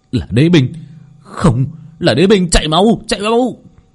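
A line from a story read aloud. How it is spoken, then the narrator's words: Screaming. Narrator (Vietnamese): Hai pháp sư hét lên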